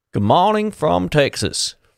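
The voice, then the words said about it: Poor put-on Texas accent. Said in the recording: “That's my shocking Texas accent.”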